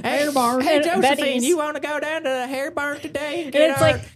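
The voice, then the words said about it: Bad put-on Southern accent. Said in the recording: “I'm sorry if I offended any of our Southern listeners with my bad accent”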